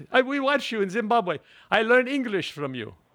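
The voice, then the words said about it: Put-on Zimbabwean accent. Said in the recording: “That's a very bad Zimbabwean accent. ... No, I think your dialect work is spot on.”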